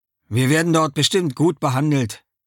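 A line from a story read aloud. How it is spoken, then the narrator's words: Plain. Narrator (German): sagt Gitu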